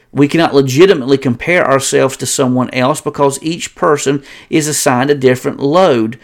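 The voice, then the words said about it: Southern American accent. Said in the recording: “having a Southern accent is bad enough trying to pronounce English words”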